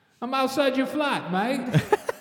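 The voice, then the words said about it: Fake accent. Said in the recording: “my fake accent”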